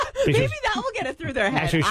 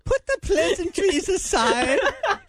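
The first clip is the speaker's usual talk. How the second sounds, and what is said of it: Put-on British accent. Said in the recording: “I like how you sounded British... And then you switch back”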